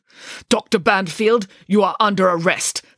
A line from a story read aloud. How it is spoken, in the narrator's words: spat the man